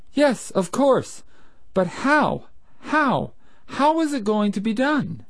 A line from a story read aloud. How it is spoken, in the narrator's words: exclaimed Breton